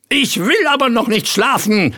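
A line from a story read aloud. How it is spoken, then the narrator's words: Screaming and crying. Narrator (German): schrie Ritterchen Rost, warf sich heulend in den Sandkasten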